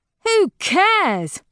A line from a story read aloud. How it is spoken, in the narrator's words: Harmony sneers